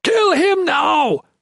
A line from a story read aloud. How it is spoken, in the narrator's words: Chatan bellowed